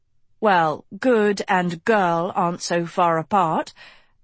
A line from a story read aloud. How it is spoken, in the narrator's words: Agatha said